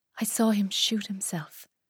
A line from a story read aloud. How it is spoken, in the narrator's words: I whispered to Angela, the nurse on call